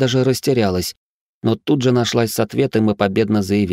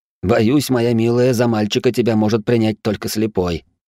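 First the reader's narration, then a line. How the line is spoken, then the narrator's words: Amused snort. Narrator (Russian): хмыкнул я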